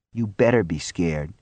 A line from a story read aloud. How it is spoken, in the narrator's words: he murmured